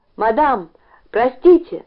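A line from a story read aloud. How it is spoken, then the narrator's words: Shout. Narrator (Russian): закричал он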